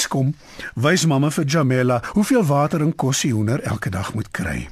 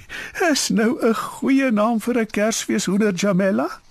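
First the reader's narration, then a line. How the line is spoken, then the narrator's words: Laughing. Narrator (Afrikaans): Mamma lag en sê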